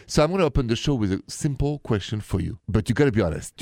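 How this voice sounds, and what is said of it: French accent. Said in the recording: “The accent is from Paris, France.”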